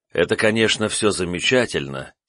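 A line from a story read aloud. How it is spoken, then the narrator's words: Heavy sigh. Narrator (Russian): тяжело вздохнул я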